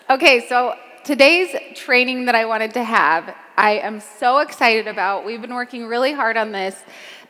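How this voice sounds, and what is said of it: Hoarse, fading voice. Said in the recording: “I'm losing my voice so bad, but I think it's actually kind of sexy, a little bit.”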